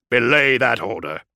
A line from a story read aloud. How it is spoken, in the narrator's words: growled Kulik